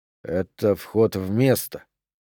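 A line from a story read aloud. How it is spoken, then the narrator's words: Mutter. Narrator (Russian): пробормотал Дюпре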